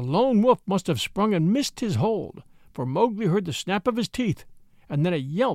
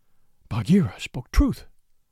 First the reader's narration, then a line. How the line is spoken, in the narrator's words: he panted